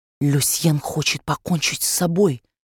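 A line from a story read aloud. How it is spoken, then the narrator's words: Whisper. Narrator (Russian): шепнула она Европе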